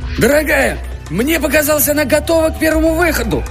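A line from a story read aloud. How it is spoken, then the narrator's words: Shouting. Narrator (Russian): кричал Мэдж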